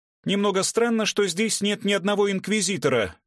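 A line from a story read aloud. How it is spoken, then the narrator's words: Girl shouting into microphone. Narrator (Russian): кричала в микрофон девушка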